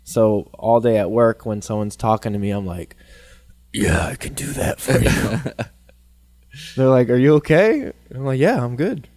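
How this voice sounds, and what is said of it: Hoarse, losing voice. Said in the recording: “start to lose my voice while I'm at it ... which is why my voice is like this, because no matter how much I clear my voice, my throat, it just sticks there”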